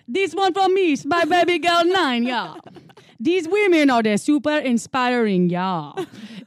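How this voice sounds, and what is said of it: Put-on Jamaican accent. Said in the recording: “Should I do one in a Jamaican accent?”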